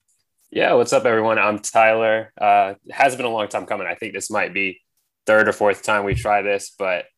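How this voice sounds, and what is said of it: Congested, stuffy-nosed voice. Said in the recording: “My allergies killing me. So if I sound a little congested”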